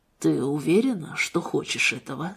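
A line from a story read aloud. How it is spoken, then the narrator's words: Softly asked. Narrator (Russian): спросил он мягко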